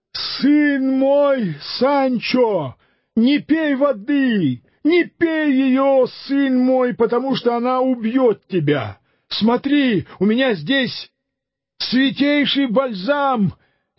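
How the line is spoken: Loud shout. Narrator (Russian): господин его громко крикнул ему

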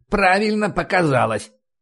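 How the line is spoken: Grumbling. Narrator (Russian): проворчал Харрис

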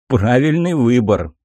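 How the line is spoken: Smug chuckle. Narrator (Russian): хмыкнул скальпель

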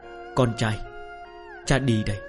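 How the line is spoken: Muttering. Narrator (Vietnamese): vừa đi vừa lẩm bẩm

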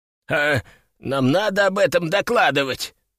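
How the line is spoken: Forced-out words. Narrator (Russian): наконец выдавил из себя Петруха

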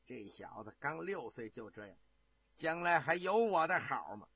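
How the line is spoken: Shocked, furious, bitter. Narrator (Chinese): 万贵妃呀、又惊又怒，恨恨的说

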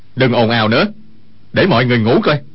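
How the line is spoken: Shouting. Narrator (Vietnamese): Dương Khang quát

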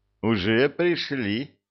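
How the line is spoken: Chuckling emperor. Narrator (Russian): хохотнул император

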